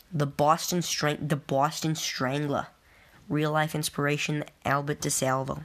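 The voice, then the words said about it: Weak put-on Boston accent. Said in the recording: “I feel like I'm not doing a good enough Boston accent”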